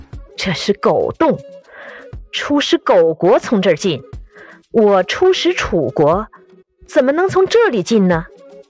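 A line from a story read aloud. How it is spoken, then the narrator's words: Sneering. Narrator (Chinese): 晏婴冷笑一声说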